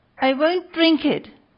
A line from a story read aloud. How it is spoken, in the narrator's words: cried Pinocchio, bursting out crying